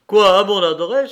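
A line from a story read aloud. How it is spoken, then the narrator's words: Sudden cry. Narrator (French): s'écria-t-il tout à coup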